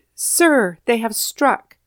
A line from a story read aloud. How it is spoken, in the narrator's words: Captain Forrest himself cried